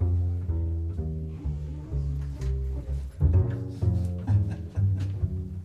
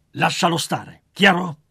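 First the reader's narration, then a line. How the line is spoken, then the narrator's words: Woolly creature growling. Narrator (Italian): ringhiò il lanoso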